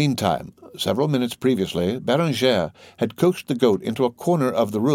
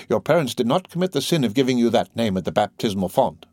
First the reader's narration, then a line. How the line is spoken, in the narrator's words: exclaimed Dame Aloise solemnly